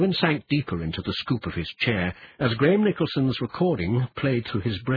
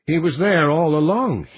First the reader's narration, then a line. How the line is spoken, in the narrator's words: said brokenly